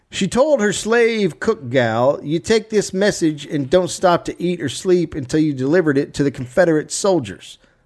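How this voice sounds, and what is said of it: Put-on Southern accent. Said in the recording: “People are going to hate my southern ... accent, I love it.”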